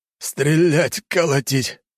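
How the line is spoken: Barely forced out. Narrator (Russian): только и смог выдавить из себя Коганов

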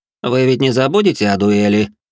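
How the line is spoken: Mocking question. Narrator (Russian): спросил он насмешливым тоном

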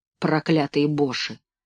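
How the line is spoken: Muttered. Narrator (Russian): пробормотал

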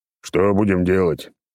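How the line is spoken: Deep bass, old man. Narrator (Russian): пробасил старик

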